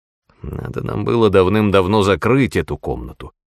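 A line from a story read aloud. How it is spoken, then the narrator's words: Grumble. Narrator (Russian): проворчал он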